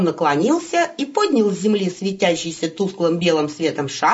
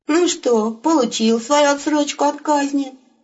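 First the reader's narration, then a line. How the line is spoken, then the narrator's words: Wolf's grim smirk. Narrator (Russian): Мрачно усмехнулся волк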